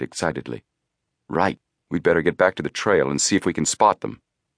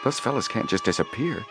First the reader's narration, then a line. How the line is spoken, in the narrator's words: he muttered